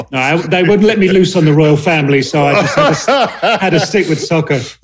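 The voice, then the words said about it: British accent. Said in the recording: “your accent straight from the UK”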